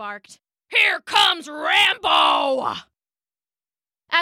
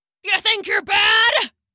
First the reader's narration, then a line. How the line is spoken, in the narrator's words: Rambo barked